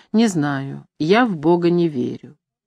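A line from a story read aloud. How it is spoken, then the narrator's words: Very calm. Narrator (Russian): очень спокойно сказал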